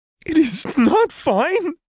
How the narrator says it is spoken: Lux sobbed

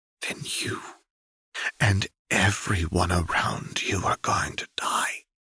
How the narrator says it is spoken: said quietly

